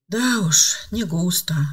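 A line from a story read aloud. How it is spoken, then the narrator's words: Sigh. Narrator (Russian): вздохнула Ева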